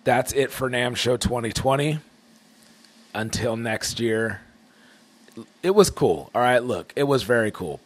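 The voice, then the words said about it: Rough, shaky voice. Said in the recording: “My voice is still a little rough, shaky.”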